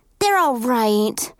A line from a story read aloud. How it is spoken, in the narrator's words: Cheyenne said with a sigh